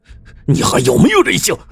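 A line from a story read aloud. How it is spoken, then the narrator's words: Angry. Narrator (Chinese): 邓志勇愤怒的说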